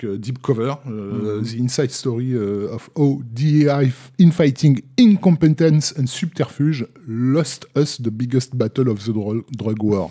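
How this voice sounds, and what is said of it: Hard-to-follow English accent. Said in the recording (French): “ton accent anglais nous a perdu”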